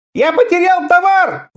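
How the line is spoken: Frantic screaming, spluttering. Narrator (Russian): вопил он, брызгая слюной

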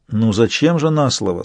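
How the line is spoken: Calm. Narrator (Russian): спокойно сказал канцлер

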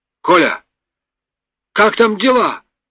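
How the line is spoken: Shouting over engine noise. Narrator (Russian): прокричал, перекрывая гул двигателя, стармех

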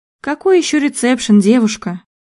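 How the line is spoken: Weary question. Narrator (Russian): устало спросила продавщица

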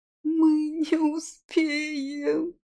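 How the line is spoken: Sobbing. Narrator (Russian): всхлипнула Май

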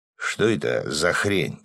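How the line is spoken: Muttered. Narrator (Russian): пробормотал Свят

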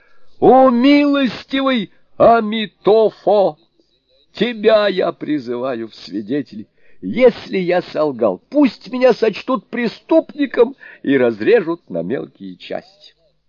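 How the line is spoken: Fervent exclamation. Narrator (Russian): волшебник воскликнул

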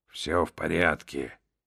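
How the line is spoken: Mumbling. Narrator (Russian): пробормотал Хаттер

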